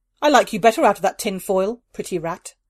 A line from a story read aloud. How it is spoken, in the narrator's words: Dhanesh said